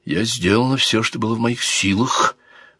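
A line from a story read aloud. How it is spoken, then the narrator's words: Whispered reply. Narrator (Russian): шепотом ответила ему принцесса Марион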